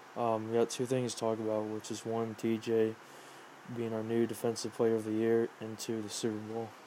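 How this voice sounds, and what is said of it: Weak, tired voice. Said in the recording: “my voice is just not there. I'm pretty tired right now.”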